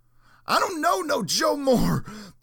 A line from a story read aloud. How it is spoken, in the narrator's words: the man screamed defiantly, his mustache a repository for the spittle flying from his lips